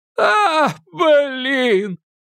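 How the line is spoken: Vexed exclamation. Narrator (Russian): с досадой воскликнул Тимми

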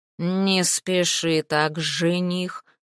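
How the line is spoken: Growling. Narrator (Russian): прорычал он

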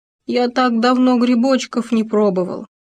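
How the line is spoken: Hedgehog sighing. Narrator (Russian): Вздохнул еж

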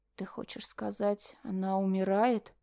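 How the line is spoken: Hoarse question. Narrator (Russian): хрипло спросила Флора

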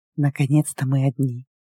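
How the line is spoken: Tense whisper. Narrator (Russian): Напряженный шепот

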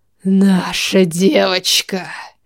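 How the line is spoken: Hoarse rasp. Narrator (Russian): Аарон прохрипел

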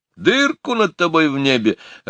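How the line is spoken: Loud laughter. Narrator (Russian): расхохотался я

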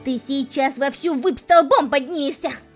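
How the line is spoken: Indignant shout. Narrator (Russian): Закричала она, возмущенно

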